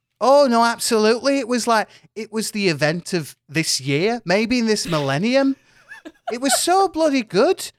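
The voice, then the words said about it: Put-on northern English woman's accent. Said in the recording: “I wish I'd chosen that accent ... It is a lovely little accent to do. A little northern woman ... Just northern”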